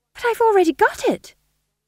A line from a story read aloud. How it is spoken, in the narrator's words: said Tom John desperately